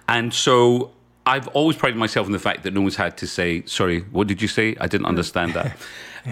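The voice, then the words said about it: Scottish Glasgow accent. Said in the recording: “my dad sounded exactly the way that I sound. So my accent is very like my dad's, both from Glasgow”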